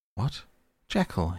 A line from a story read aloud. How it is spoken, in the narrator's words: he cried